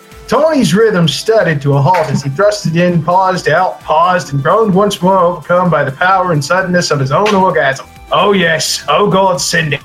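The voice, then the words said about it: Shifting 1920s newscaster-Australian accent. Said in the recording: “What Gross accent are you doing? ... It's literally crossing massive oceans from word to word. ... It's 1920s newscaster mixed with an Australian mixed with somebody who just lit their penis on fire.”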